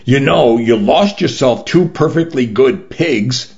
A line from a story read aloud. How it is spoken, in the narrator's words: informed through gritted teeth